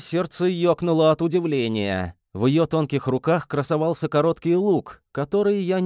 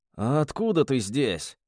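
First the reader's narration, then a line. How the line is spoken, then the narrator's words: Hoarse, in pain. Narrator (Russian): прохрипел борясь с волнами боли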